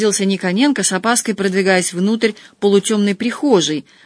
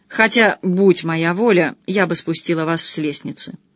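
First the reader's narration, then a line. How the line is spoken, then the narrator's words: Spiteful invitation. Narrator (Russian): злобно пригласила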